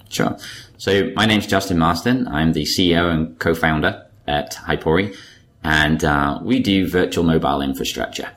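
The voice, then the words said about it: British accent. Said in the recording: “your British accent. At least I'm assuming it's a British accent.”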